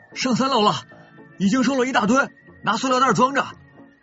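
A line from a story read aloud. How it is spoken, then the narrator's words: Student calling out. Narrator (Chinese): 另一个同学叫道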